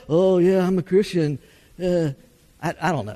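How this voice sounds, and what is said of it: Mock hesitant, unenthusiastic Christian voice. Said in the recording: “that's like the worst bad Christian impersonation I've ever, ever done”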